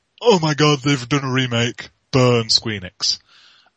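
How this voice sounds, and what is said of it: Mocking outraged internet-commenter voice. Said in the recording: “my my impression of corners of the internet”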